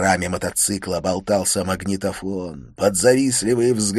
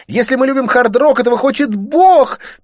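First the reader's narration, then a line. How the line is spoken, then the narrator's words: Panicked squeak. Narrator (Russian): пискнула паникующая девица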